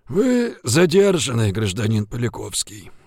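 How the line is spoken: Creaky-voiced announcement. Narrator (Russian): скрипучим голосом объявил Жигулин

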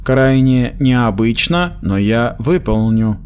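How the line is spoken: Grating mechanical voice. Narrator (Russian): произнес Старстон скрежещущим машинным голосом

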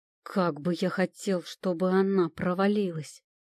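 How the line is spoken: Growled. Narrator (Russian): прорычал

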